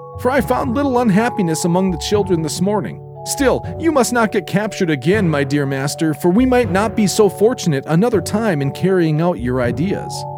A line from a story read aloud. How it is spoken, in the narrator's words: cried the fairy in a pleased voice